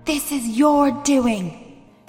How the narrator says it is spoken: raged Quang Zilean

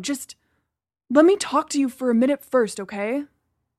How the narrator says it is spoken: I sighed

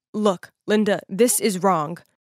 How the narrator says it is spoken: in a firm voice, he said

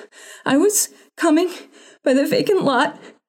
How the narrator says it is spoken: she panted

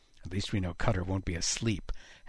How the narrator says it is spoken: Haddox muttered

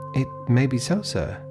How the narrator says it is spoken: timidly observed

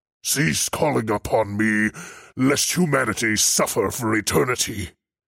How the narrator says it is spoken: he bellowed

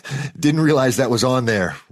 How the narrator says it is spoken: Rory said, laughing nervously

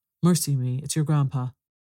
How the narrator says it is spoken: exclaiming with alarm

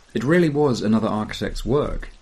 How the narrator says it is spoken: says

